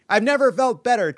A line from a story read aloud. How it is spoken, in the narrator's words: Trump shouted